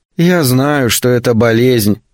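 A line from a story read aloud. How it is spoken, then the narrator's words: Sighing. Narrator (Russian): вздохнула Рут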